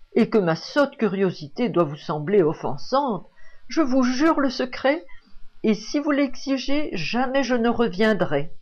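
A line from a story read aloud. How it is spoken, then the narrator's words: Exclaiming. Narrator (French): s'écria Vanina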